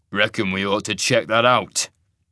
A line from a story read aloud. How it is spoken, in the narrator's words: the wolf growled